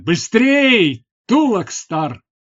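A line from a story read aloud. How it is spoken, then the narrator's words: Shouting. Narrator (Russian): крикнул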